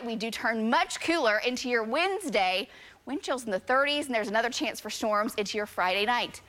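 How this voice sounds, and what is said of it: Breathless, winded speech. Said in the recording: “I'm out of breath.”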